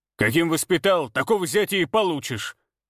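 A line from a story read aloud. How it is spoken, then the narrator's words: Barked retort. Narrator (Russian): рявкнул в ответ Николай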